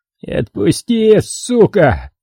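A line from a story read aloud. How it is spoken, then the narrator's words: Moaning. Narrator (Russian): простонал он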